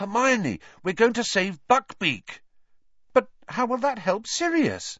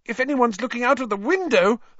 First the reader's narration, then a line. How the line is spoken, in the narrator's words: Hermione squeaked